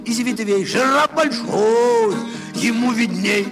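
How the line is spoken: Old parrot's loud cry. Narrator (Russian): только старый попугай громко крикнул

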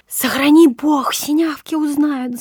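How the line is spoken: Frightened whisper. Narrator (Russian): замирая, шептала Федорова

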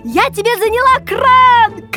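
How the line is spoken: Shouting. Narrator (Russian): крикнула мне Нина

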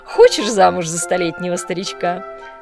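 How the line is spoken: Laughing question. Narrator (Russian): смеясь спросила маркиза

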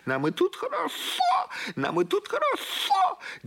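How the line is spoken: Shouting upward. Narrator (Russian): она закричала в небо

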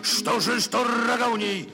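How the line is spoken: Loving shout, giraffe. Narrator (Russian): кричал жираф любовно

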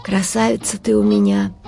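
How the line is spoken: Sobbing mother. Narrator (Russian): всхлипывая, сказала мать

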